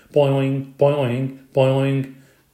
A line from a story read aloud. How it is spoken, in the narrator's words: croaked Og